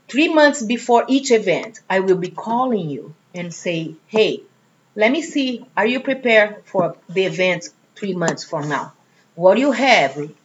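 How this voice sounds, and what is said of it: Slight foreign, non-US accent. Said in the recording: “you have a little bit of an accent ... Maybe you weren't from the U.S. to begin ... that's a good accent”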